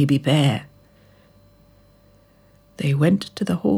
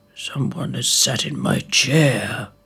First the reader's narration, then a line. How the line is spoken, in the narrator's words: growled father bear